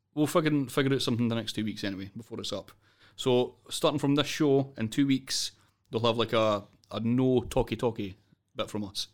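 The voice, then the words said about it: Scottish accent. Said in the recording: “the Scottish accent”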